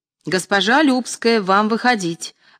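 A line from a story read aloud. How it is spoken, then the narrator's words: Shouted. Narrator (Russian): закричал режиссер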